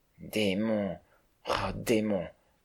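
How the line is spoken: Murmured. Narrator (French): murmura-t-il

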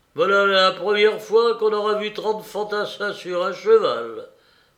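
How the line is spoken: Soldier's mocking exclamation. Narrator (French): s'écria le grenadier qui avait abattu la jument

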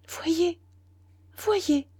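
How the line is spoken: Servant stammering very quietly. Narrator (French): bégaya à voix très basse la servante

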